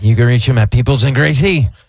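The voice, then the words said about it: Lower-pitched impression of another person. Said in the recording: “my best Dominic Ferriello impersonation ... It's a lower pitch, more of a B flat”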